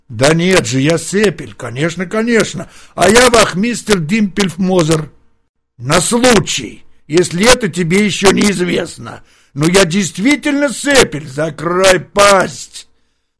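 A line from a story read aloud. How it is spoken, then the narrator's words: Bandit yelling. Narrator (Russian): завопил разбойник Коцин-Плоц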